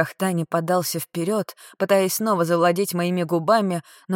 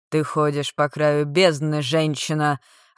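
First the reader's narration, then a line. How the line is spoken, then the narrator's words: Growled. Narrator (Russian): рыкнул Шек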